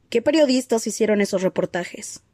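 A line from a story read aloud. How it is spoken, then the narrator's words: Plain. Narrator (Spanish): preguntó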